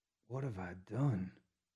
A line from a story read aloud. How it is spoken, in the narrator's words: he whispered to himself